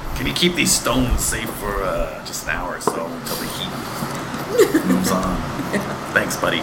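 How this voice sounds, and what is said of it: Knight character with Jersey accent. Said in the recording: “the knight had a Jersey accent”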